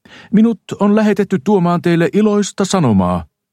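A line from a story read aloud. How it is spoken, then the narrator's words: Clear, loud explanation. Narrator (Finnish): hän selitti mahdollisimman selvällä ja kuuluvalla äänellä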